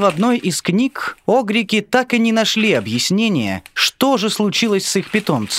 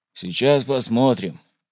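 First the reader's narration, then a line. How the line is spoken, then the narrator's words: Grumbling mutter. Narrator (Russian): пробурчал механик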